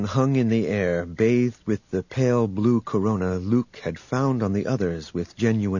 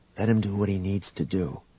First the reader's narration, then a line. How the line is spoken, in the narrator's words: Han whispered to the young man